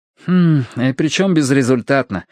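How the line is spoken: Sighed. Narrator (Russian): вздохнул Ти-Джей

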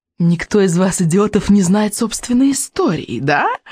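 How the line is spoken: Purring witch. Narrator (Russian): промурлыкала ведьма

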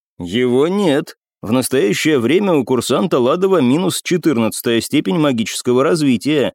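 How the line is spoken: Plain. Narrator (Russian): ответил Шпилевский

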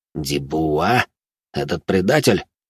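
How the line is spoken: Through gritted teeth. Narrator (Russian): процедил сквозь зубы Жумельяк

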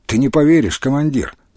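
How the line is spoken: Calm. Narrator (Russian): спокойно сказал

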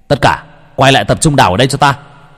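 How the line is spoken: Shouting. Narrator (Vietnamese): Huy hét lên

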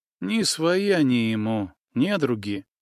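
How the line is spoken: Young man explaining quietly. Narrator (Russian): так же тихо пояснил юноша

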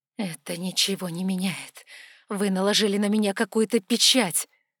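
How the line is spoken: Through gritted teeth. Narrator (Russian): Процедила я сквозь зубы

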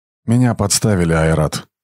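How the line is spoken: Tired. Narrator (Russian): устало сказал Брахма

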